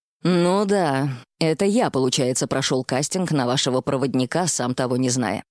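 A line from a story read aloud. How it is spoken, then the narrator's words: Grumbling mutter. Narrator (Russian): пробурчал Тишин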